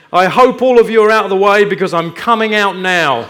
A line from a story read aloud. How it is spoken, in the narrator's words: a voice was heard coming from under the church shouting